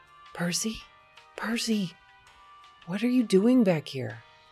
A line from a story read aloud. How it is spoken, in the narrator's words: Percy wheezed